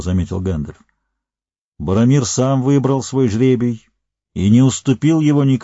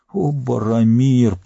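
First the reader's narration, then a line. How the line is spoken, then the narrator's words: Groaned. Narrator (Russian): простонал он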